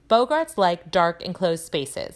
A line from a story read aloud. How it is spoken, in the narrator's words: said Professor Lupin